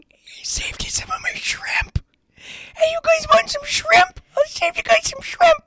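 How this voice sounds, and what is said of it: Imitating an elderly great-grandmother. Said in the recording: “This is her imitating our great-grandmother who is no longer alive. ... It sounds just like her. It truly does.”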